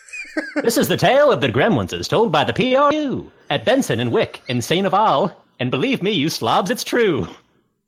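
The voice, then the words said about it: Put-on British transatlantic accent. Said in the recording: “in the Percy Prune voice ... British accent impressions ... like a transatlantic accent, which I may be able to do ... mix them up”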